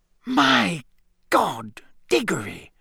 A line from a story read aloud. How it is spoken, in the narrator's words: it whispered